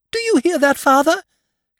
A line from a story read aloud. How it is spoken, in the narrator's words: cried the blind girl in an ecstasy